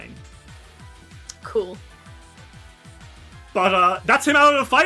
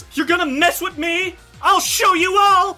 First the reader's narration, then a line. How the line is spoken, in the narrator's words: as she kind of screams, it gets really loud